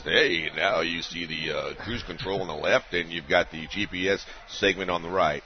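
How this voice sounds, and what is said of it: Deep-voiced car commercial announcer impression. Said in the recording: “that guy on that show that's doing the commercial with the cars ... He's got that deep voice.”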